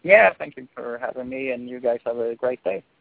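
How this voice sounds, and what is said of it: Swedish accent. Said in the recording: “The Swedish accent just gets me. He's good looking, Swedish, like he's got that accent.”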